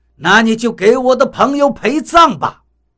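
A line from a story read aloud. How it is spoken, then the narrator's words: Roaring. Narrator (Chinese): 雷森吼道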